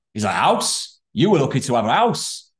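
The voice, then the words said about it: Deliberately bad put-on Yorkshire accent. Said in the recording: “I'm going to put on a shitty Yorkshire accent”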